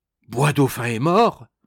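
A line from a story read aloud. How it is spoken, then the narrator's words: Men crying out in alarm. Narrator (French): s'écrièrent les trois brigands, voyant que leurs camarades ne remuaient pas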